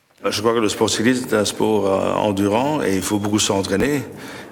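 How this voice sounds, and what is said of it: Speaks French with an accent. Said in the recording (French): “Peut-être avez-vous entendu aussi un accent.”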